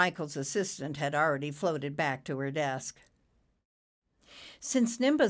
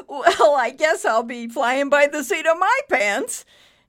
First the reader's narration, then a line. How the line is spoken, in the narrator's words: he added with a heartfelt laugh